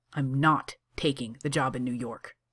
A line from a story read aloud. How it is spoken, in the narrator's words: says Johnny fiercely